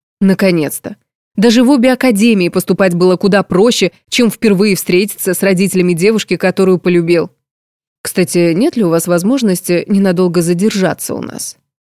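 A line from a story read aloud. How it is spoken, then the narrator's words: Count interrupting. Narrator (Russian): Вклинился граф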